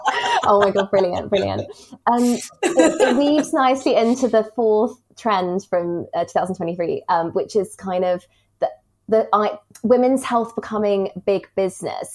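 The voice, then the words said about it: Charming non-American accent. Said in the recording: “It is so charming... there are so many Americans that listen to my podcast who are going to love you just because of your accent.”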